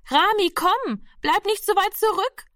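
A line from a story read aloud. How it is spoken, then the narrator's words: Sister calling out again. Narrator (German): rief die Schwester schon wieder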